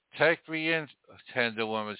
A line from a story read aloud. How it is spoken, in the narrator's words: sighed the snake